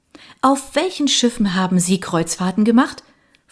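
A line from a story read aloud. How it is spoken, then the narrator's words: Plain. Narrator (German): fragte Mary Darina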